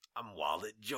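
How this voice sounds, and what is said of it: Deep menacing baritone character voice. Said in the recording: “I like doing this voice too much ... You've got a great voice. ... I used to be a baritone in a barbershop quartet, but now I just talk menacingly to you”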